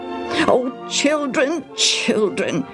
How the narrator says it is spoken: Shira pleaded

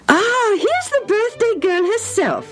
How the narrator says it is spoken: her mother said merrily

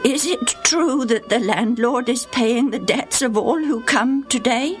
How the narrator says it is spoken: In quavering tones, asked

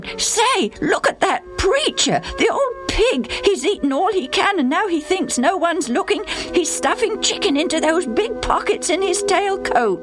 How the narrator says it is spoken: Suddenly, Bill exclaimed

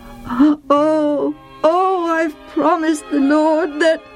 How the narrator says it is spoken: he groaned

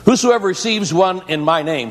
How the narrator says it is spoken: says Jesus

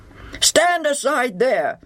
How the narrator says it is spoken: the intruder roars to Madden

